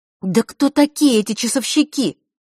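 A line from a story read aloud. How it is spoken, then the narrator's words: Exclaiming. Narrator (Russian): воскликнула Василиса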